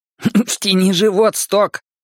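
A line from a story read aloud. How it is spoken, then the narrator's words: Hysterical laugh. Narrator (Russian): Ричи истерически хохотнул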